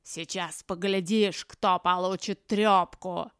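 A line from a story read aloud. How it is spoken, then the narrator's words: Inhuman growl. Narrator (Russian): прорычал Лаймах нечеловеческим голосом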